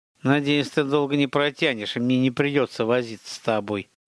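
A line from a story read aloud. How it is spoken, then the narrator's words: Hissed through teeth. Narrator (Russian): процедила она сквозь зубы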